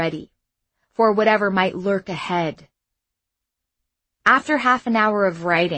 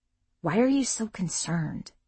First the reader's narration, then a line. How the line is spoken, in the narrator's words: Tariq whispered